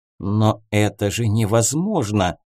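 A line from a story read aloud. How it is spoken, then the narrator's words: Mutter. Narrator (Russian): пробормотал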